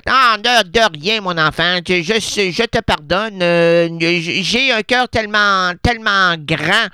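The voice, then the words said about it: Character voice with Québécois accent. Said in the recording (French): “t'as pas l'accent français... l'accent, je l'ai pris très, très vite... à Québec”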